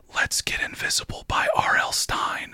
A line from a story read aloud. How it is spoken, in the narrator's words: Aaron whispers